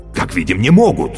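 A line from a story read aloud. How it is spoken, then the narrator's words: Exclaiming. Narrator (Russian): воскликнул Каще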